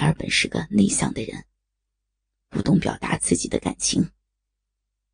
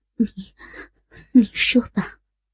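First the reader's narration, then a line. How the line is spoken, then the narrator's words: Trembling, heartbroken. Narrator (Chinese): 圣洁女人，芳心欲碎，苦忍着阵阵酸楚，颤声道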